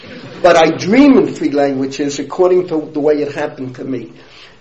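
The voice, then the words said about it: Bronx accent. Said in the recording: “I speak three languages, all with a Bronx accent.”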